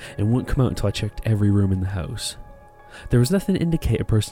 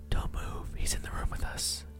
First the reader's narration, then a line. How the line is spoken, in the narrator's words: my wife whispered